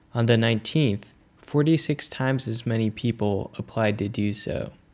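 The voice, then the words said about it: Polished radio announcer voice. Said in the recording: “really felt like I went into my new radio voice reading that ... hope you enjoy that new diction. Hope it's very clear and understandable, and that my tone is modulated”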